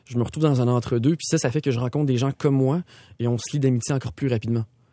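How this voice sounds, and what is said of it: Quebec French accent. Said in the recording (French): “t'as vraiment un accent très québécois”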